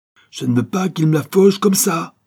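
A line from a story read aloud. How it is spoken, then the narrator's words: Exclaimed. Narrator (French): s'écria l'autre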